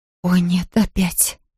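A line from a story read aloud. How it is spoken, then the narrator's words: Whispered. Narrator (Russian): прошептала она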